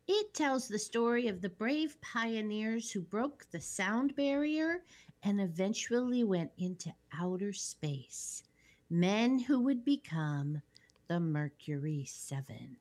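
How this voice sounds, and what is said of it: Teacherly explaining voice. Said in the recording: “You just did teacher voice.”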